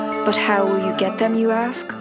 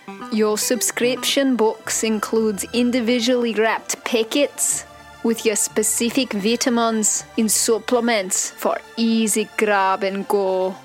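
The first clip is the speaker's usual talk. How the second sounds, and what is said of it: Put-on Scottish accent. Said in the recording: “This part sounds better in a Scottish accent.”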